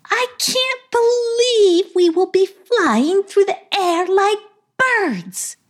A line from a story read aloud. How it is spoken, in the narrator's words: exclaimed Madam